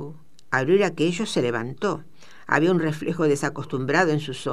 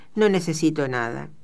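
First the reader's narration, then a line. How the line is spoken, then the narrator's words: Cold male reply. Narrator (Spanish): respondió fríamente él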